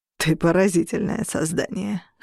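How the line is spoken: Scoffing. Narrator (Russian): хмыкнул мрак

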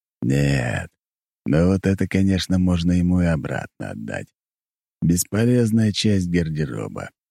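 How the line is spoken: Plain. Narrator (Russian): сказал Дориан

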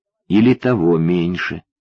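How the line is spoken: Quiet. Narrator (Russian): тихо сказала Ксюша

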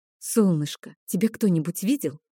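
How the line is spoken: Quiet question. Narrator (Russian): негромко спросила я

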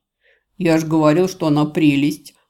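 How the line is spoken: Laughing. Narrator (Russian): Конвоир хохотнул, оценив мою шутку

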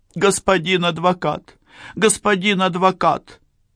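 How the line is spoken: Sobbing. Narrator (Russian): Она рыдала очень натурально

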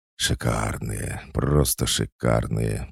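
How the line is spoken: Whisper. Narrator (Russian): прошептал

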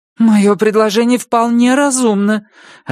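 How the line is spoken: Offended. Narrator (Russian): обиженно сказала Вероника

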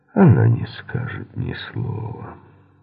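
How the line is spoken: Gloomy remark. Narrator (Russian): мрачно заметил Мейсон

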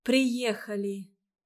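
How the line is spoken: Joyful. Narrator (Russian): Радовалась Ольга

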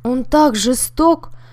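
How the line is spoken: Sudden passionate cry. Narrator (Russian): вдруг со страстью вскрикнула мисс Пол

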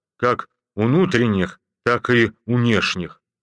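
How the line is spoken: Gloomy. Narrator (Russian): шмыгнул носом и мрачно добавил

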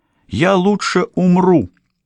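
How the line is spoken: Exclaimed. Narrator (Russian): воскликнула она

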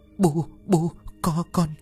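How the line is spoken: Frightened stammering. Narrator (Vietnamese): Ông Sàn chết cứng, hoảng kinh rồi lắp bắp

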